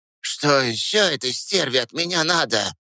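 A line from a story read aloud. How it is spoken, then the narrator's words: Hateful, fearful hiss. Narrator (Russian): Прошипела она, с ненавистью и страхом одновременно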